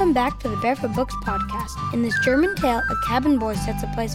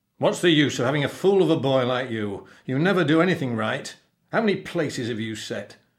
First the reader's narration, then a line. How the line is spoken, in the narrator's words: the captain growled